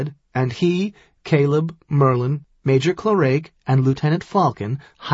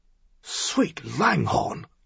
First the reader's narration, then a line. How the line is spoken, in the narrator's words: Lock Island murmured